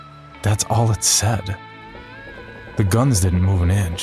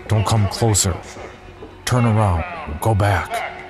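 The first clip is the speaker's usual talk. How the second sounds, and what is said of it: Heavy accent over loudspeaker. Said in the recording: “a loudspeaker crackled to life ... In a heavy accent.”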